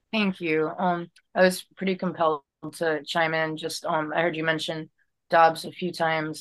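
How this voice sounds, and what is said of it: Hoarse, strained voice. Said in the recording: “forgive me, I'm losing my voice because I've been petitioning for a couple of months”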